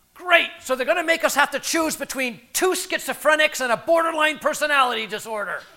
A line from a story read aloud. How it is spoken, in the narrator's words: one of our residents, Richie, blurted out